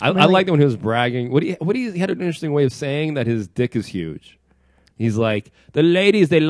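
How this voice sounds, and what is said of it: Usual voice. Nothing is said of it.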